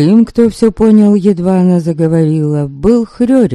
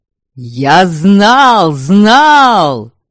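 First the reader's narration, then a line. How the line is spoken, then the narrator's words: Shouted. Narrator (Russian): Закричал он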